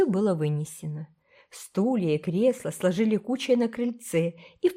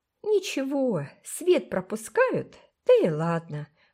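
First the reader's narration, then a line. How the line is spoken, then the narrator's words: Cheerful reply. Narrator (Russian): бодро отозвалась Фейт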